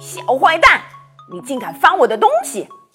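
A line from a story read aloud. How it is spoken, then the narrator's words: Angry voice. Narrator (Chinese): 传来一个愤怒的声音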